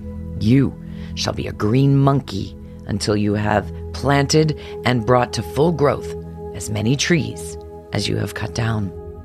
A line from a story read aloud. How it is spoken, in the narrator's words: the enchanter turned fiercely upon the woodcutter